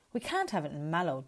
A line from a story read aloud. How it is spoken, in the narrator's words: Dwayne splutters